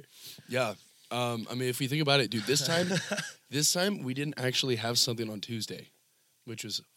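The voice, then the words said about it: Hoarse, congested voice. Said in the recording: “my voice, I mean, you can hear mine too, we're like totally screwed up. I mean, this morning, I couldn't even breathe throughout one nostril.”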